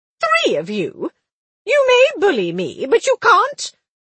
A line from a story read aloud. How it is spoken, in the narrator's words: She exclaimed